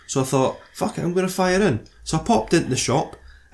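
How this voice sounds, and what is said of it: Scottish accent. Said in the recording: “I'm in Scotland. That's where I'm now, by the way, if you couldn't tell from the accent.”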